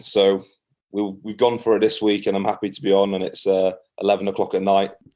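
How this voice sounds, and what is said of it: Scottish accent. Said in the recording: “That Scottish accent is coming through like you wouldn't believe.”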